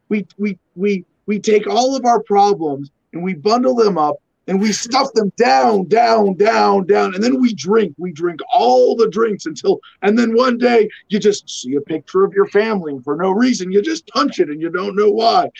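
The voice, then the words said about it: Imitates another person's voice. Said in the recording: “bad Kyle Kinane impersonation ... me trying to do a Kyle Kinane bit”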